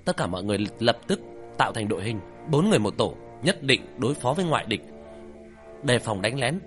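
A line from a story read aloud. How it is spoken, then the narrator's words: Loud commanding shout. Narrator (Vietnamese): Nguyên Tịch quát lên, lớn tiếng ra lệnh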